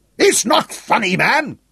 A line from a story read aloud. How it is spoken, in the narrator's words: roared Sean Courtney